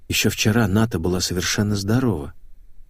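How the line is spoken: Whisper. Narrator (Russian): прошептал я

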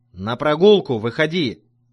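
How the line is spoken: Yelling jailer. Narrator (Russian): тюремщик просто орал

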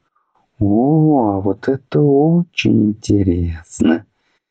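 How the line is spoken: Drawling. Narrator (Russian): протянула Лисита

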